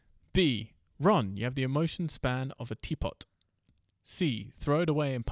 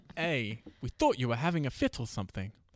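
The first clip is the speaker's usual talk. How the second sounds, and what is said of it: Put-on English accent. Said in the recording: “That's my English accent.”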